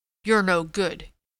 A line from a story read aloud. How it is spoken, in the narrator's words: he said roughly